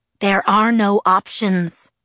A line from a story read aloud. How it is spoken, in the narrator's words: Edward hissed